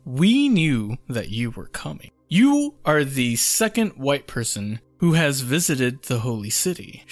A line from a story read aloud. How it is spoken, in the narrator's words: said